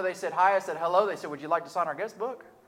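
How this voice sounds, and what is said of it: Speaker with a twang. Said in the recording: “Apparently, I've got a twang or something like that.”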